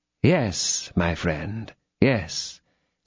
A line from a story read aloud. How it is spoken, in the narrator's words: said the cardinal, in that paternal tone which he was sometimes able to assume